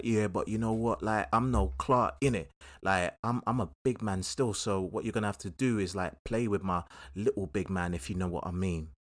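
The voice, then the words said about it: Put-on South London accent. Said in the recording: “You have to give it a South London accent”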